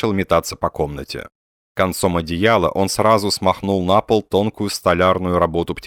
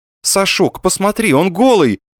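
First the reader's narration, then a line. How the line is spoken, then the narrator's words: Shouting woman. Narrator (Russian): закричала она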